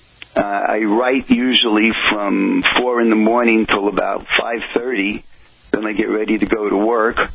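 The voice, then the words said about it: New Jersey accent. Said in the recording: “my New Jersey accent, which I'm sure you can hear”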